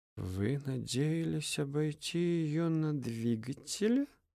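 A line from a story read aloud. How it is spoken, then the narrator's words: Muttered through teeth. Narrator (Russian): Сквозь зубы пробормотал Эдельхейд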